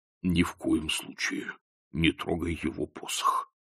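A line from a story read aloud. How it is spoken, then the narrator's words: Muttering. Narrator (Russian): пробормотал он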